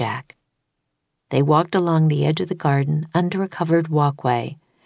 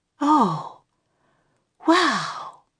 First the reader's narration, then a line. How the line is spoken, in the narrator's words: breathed Annie